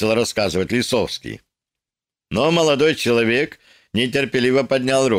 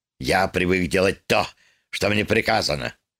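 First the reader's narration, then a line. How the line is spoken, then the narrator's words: Angry snap. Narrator (Russian): злобно огрызнулся Лисовский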